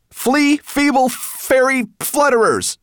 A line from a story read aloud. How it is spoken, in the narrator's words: shouted Ben